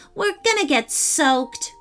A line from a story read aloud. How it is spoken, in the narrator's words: grumbled Chloe